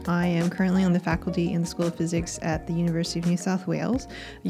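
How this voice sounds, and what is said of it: American accent. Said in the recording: “You can probably tell from my accent that I'm American”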